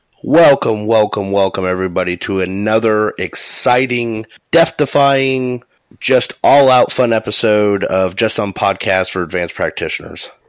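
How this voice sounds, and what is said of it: Congested voice from a head cold. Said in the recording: “I have a head cold, so if I sound a little terrible”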